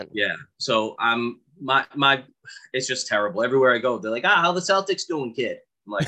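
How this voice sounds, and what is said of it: Thick South Boston accent. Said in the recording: “I have a very thick Boston accent ... he's got a Southy Boston accent”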